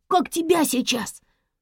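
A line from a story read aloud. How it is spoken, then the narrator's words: Startled breathless gasp. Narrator (Russian): Вдруг горничная округлила глаза и выдохнула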